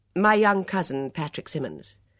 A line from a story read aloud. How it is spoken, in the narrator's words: Miss Blacklock continued sharply, annoyed with her friend